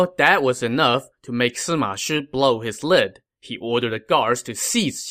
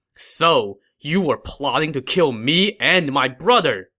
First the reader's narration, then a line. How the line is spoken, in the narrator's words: he said angrily